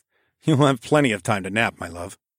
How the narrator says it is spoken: chuckled under my breath

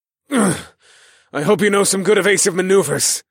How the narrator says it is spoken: I grunted

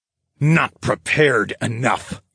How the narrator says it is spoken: snarled

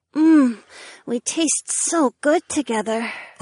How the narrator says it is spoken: Ariana moaned

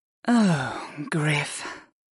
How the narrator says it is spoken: Arwen sighed

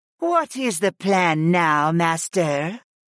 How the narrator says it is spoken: Miralee purred, and the jaguar goddess's orange eyes were flirtatious

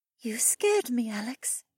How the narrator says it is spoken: she admitted in a small voice

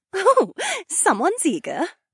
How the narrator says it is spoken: Shay giggled

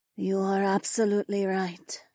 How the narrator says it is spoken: she breathed

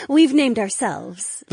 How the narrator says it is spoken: the Volpez woman giggled

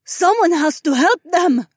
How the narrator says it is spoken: Zoe cried out

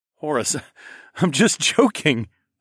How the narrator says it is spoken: I laughed

